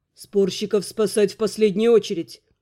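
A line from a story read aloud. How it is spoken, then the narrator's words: Quiet command. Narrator (Russian): негромко приказал Терн Элваром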